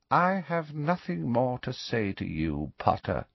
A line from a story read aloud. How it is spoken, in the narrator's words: he said quietly